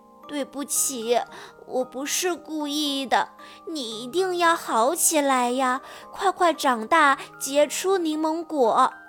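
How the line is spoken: Tearful. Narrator (Chinese): 线团姐忍不住哭了

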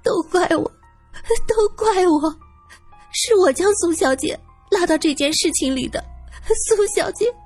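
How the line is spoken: Frightened sobbing mumble. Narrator (Chinese): 方太太吓得呜呜哭起来，嘴里不停的念叨着

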